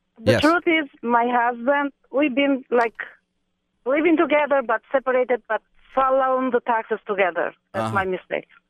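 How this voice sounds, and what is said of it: Albanian-accented English. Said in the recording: “I thought that accent sounded familiar. You sound like that guy Boris from the movie ... Borat ... a lovely accent, dear. A lovely accent.”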